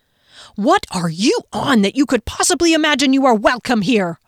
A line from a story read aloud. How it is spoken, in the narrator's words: yelled